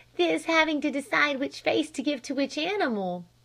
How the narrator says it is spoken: she giggled

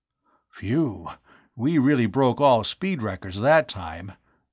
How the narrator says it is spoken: Arv panted

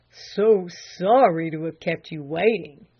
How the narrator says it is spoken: he murmured

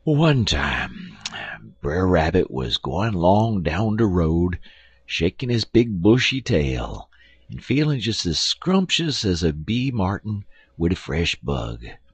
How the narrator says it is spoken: said Uncle Remus, sighing heavily with an air of melancholy resignation

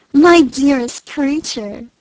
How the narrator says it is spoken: cried Isabella

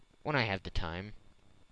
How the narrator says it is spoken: replied Phileas Fogg quietly

